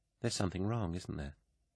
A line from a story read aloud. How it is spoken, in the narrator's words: she asked, quietly